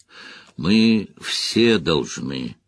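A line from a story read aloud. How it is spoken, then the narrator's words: Grumbling mutter. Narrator (Russian): пробурчала Верин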